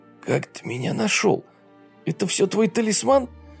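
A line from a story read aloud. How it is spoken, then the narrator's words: Hoarse wheeze. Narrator (Russian): просипел молодой человек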